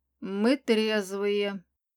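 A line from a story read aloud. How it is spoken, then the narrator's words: Low shocked rasp, dragon. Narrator (Russian): Дракон низким голосом шокированно прохрипел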